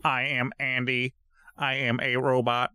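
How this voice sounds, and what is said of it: Monotone robot voice. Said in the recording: “doing the robot voice”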